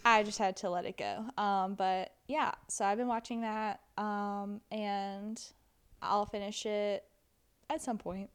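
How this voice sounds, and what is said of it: Natural Southern American accent. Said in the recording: “we are Southern. These are real accents”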